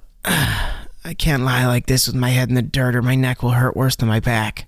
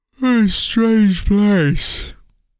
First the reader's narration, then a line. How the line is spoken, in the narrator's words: Tim said with a yawn